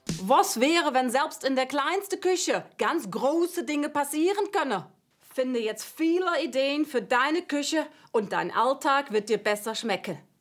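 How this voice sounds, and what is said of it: German with put-on Dutch accent. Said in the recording (German): “mit niederländischem Akzent ... Falscher Akzent. Holländisch. ... Eher holländisch irgendwie.”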